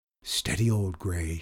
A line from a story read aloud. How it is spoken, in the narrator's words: he said in a low voice